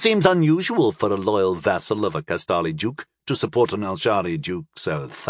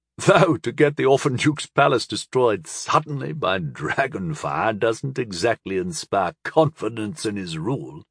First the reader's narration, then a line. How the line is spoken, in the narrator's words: Moran chuckled